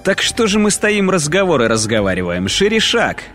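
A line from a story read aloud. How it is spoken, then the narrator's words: Brisk command. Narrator (Russian): бодро скомандовал рядовой Ноя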